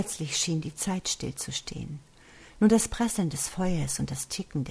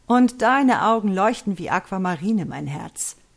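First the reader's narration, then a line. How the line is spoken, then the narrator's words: Theatrical, mocking. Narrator (German): Theatralisch, mit einem spöttischen Zug um die Mundwinkel, sagte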